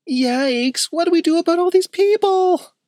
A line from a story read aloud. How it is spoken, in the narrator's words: whimpered Skylar